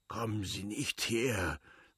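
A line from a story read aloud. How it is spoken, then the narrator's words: Sick man's angry mutter. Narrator (German): murmelte der Kranke ärgerlich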